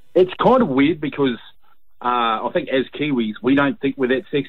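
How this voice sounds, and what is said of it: Male New Zealand accent. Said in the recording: “the male version of the New Zealand accent”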